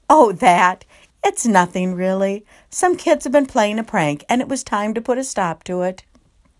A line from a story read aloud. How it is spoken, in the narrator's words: Chatham laughed and said